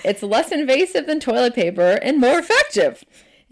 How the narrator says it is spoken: laughed and I said

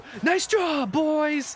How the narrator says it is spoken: yelling

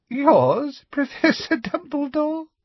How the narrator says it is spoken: said Umbridge, with a singularly unpleasant little laugh

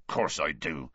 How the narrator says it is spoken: Hagrid grunted

